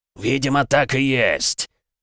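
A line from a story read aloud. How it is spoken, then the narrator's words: Monster's growl. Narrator (Russian): рыкнул монстр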